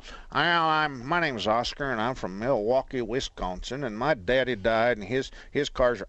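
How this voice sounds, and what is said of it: Put-on Texas accent. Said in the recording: “I'm doing a Texas accent for the Milwaukee guy”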